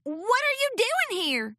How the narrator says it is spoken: Apple Bloom yelped

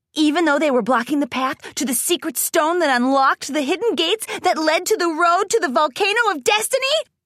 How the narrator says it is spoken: Rainbow Dash yelled

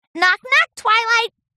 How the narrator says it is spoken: Pinky shouted into the window

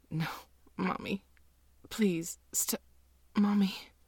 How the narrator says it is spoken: you keep whimpering

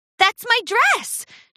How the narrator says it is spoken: Charity cried

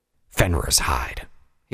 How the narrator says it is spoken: growled

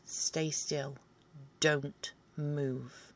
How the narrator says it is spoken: you hear me sternly say

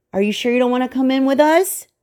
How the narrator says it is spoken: They would yell

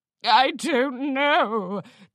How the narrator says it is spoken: Dandy Grandeur whimpered

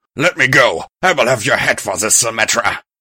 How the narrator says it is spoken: Iker roared

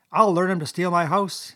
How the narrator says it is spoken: he cried

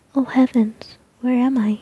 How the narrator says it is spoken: she cried

